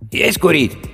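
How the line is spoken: Hoarse. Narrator (Russian): хрипло произнес он

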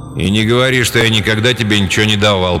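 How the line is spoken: Father grumbling. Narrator (Russian): проворчал отец

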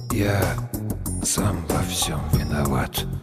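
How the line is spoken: Strained barely audible. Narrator (Russian): Ледош с трудом сказал едва слышно

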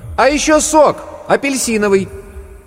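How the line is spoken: Loud shout. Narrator (Russian): Варвара громко крикнула

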